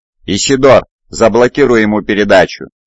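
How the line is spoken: Barked command. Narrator (Russian): рявкнул сержант

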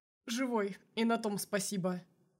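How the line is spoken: Wry snort. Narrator (Russian): хмыкнул Мишин

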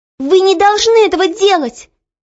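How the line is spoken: Sudden shout. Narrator (Russian): Неожиданно для себя самой вдруг крикнула Оля

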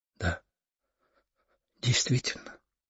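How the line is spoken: Quiet, pensive. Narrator (Russian): откликнулась она тихо, задумчиво, погружаясь в свои мысли

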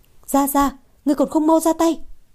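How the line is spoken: Woman shouting. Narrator (Vietnamese): Nàng lập tức hét lên

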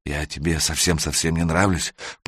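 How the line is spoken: Whisper. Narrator (Russian): прошептала она

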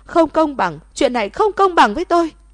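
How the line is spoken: Frantic screaming. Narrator (Vietnamese): Lận Hinh điên cuồng gào thét

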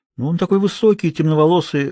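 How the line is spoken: Timid addition. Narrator (Russian): робко добавил Хьюго

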